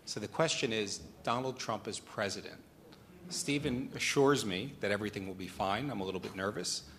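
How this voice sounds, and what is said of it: American accent. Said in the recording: “And American, as you can hear from my accent.”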